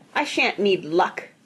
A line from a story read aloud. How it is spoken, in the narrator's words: snapped Mr